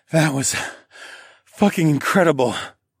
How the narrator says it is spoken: I gasped

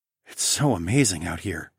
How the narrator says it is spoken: I breathed

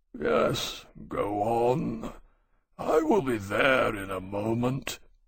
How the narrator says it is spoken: he said sleepily

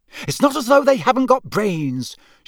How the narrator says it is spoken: she continued irritably

